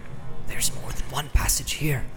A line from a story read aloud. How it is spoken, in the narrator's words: he whispered with an effort